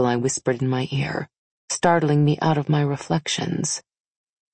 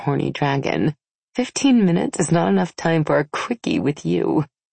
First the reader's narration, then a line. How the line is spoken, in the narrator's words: I said with a giggle